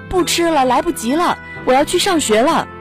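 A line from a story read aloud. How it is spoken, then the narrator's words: Shouting from behind. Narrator (Chinese): 陈怡在后面大喊着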